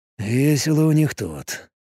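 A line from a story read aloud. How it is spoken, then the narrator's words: Muttered. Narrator (Russian): пробормотал он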